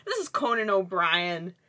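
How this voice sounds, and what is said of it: Imitates another person's voice. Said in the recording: “good impression... That was a great impression.”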